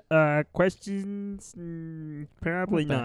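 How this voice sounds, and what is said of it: Imitates another person's voice. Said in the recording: “my Stevie impression ... it's not a very good impression ... it wasn't great”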